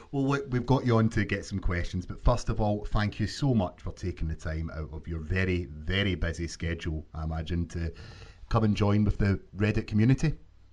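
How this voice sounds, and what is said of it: Scottish accent. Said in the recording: “I love the way you pronounce my name. It just sounds better than the way people usually say it ... everything with the Scottish accent sounds better.”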